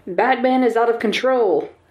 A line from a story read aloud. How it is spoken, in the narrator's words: a reporter was shouting